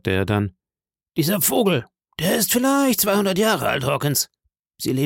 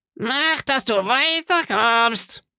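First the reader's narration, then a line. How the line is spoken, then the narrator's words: Screeching parrot. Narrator (German): kreischte der Papagei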